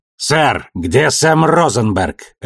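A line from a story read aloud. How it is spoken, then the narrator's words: Barked. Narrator (Russian): рявкнул Ашфорд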